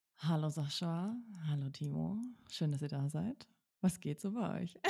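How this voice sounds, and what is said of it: Sultry, seductive speaking voice. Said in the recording (German): “startet ja tatsächlich mit so einer sexy Stimme”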